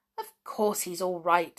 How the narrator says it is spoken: said Julian impatiently

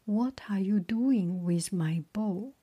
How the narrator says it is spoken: Apollo asked angrily

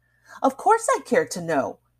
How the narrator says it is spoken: Daisy exclaimed seriously

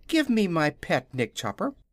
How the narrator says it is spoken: Ozma was delighted and exclaimed eagerly

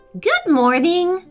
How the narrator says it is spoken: said the lady brightly

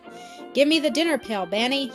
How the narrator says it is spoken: shouted Tom

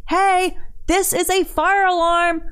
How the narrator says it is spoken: yelled

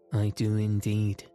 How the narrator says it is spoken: replied Shaggy

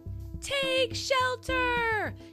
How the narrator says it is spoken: shouted Ryder

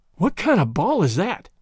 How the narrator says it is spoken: panted Tom

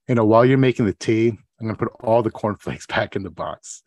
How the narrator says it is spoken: Joe, he sighs deeply and says

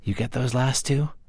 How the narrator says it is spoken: Confucius whispered to his scribe

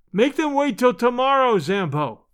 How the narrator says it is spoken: I shouted

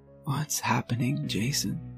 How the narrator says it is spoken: She asked weakly

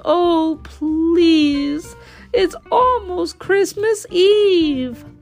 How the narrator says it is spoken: Tika wailed

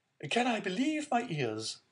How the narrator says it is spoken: cried the Marquise

